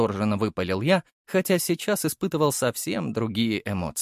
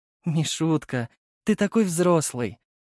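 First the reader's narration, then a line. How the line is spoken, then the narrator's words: Tender, affectionate. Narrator (Russian): ласково сказала мама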